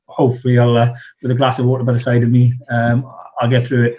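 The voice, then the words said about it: South Wales accent. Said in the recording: “my South Wales accent, which I'll try and sort of downplay”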